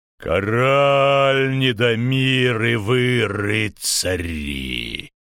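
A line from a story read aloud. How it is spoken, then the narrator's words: Brassy roar. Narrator (Russian): зарычал он так, словно это была латунная труба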